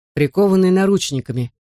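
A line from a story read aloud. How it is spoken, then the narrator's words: Calm repetition. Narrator (Russian): повторил шериф Эмори спокойным голосом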